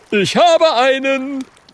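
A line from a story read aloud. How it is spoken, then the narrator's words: Calling out. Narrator (German): ruft Oskar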